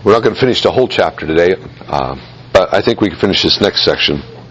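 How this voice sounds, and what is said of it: Voice weak and going hoarse. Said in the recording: “I'm losing my voice rapidly.”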